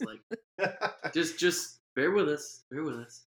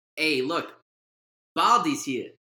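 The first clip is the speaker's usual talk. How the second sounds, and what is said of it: Failed attempt at Jamaican accent. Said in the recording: “That wasn't even a Jamaican accent.”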